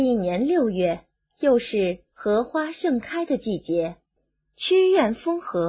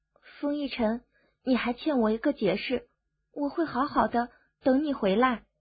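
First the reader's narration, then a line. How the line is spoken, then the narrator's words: Murmured. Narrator (Chinese): 苏荣 喃喃道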